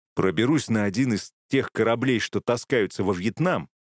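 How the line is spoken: Plain. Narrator (Russian): ответил

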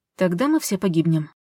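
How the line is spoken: Calm reply. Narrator (Russian): спокойно ответила Полина

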